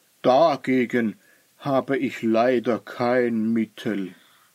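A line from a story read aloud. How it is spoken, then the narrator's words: Sad. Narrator (German): sagte traurig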